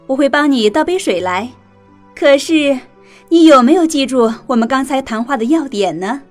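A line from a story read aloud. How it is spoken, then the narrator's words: Smiling mother. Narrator (Chinese): 妈妈笑着说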